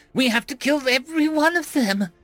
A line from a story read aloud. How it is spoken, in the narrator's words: Jala shrieked